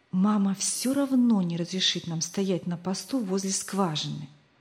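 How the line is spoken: Whispered. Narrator (Russian): прошептал Рик

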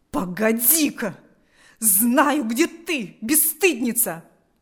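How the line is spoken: Frenzied furious shout. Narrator (Russian): закричала Марфа в исступленной ярости

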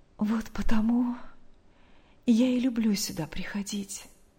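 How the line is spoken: Quiet, smiling, secretive. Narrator (Russian): снова улыбнувшись, тихо, будто не желая открыть свой секрет посторонним, сказала Мария

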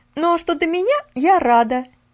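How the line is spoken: Sudden glad exclamation. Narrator (Russian): Неожиданно воскликнула Нэнси

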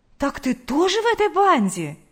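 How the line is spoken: Exclamation. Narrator (Russian): воскликнула Лидия Гавриловна

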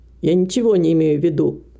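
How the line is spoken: Irritated reply. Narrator (Russian): раздраженно ответила женщина

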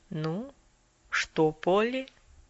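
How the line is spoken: Quiet. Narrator (Russian): доктор тихонько произнес

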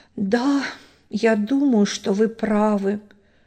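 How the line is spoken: Sad sigh. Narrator (Russian): печально вздохнул Син

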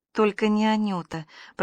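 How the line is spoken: Trembling, excited mumble. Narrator (Russian): пробормотала Аня, которая, хоть дрожащая и возбужденная

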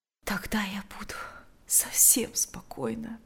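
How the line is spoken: Quiet. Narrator (Russian): тихо произнесла она

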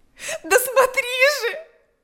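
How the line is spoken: Shouting. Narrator (Russian): закричала она

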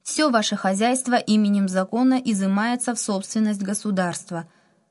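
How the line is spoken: Loud official announcement. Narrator (Russian): громко добавил руководитель оперативной группы

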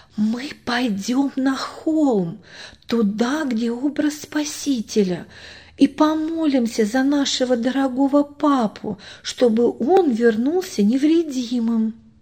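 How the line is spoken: Whispered in ear. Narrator (Russian): Машенька прошептала ему на ухо

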